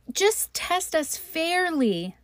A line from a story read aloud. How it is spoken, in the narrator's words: they exclaimed